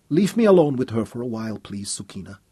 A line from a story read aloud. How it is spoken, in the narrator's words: said quietly